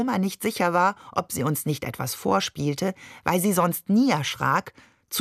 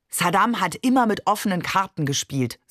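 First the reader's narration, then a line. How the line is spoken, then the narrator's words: Plain. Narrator (German): sagte Barbe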